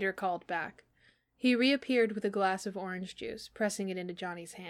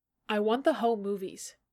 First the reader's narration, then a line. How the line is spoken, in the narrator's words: Johnny said